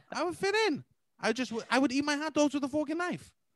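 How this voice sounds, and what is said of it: Old English put-on accent. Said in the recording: “You're talking in an old English voice.”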